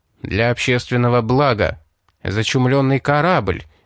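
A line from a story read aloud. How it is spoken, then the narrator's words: Began, then interrupted. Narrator (Russian): начал было офицер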